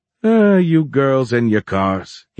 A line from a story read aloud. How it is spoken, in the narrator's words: he grumbled